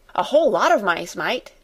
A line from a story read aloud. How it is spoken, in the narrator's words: he said cheerfully